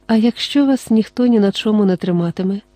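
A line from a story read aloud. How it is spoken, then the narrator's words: Calm question. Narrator (Ukrainian): спокійно спитала вона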